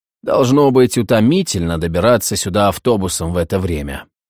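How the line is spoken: Tired. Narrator (Russian): он устало произнес

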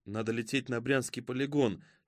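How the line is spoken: Quiet prompting. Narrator (Russian): тихо подсказала Аларика

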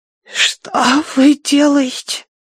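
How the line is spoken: Hoarse. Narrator (Russian): прохрипела она

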